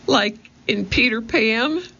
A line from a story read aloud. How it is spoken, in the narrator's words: squeaked Annie